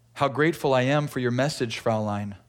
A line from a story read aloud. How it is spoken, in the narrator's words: he said